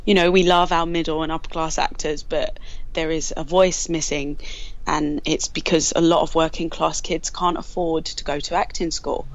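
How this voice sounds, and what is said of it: East London accent. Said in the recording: “I get to keep my East London accent”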